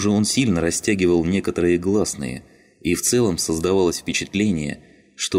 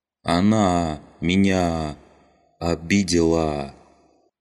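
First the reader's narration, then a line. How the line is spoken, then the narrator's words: Slow, groping for words. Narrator (Russian): Олова произнес фразу медленно, не то подбирая, не то вспоминая нужные слова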